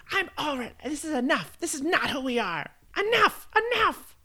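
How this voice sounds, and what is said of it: Yelling impression of another person. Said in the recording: “your impression of Taylor yelling, enough, enough? It's better when you do it. ... Yeah, that was good.”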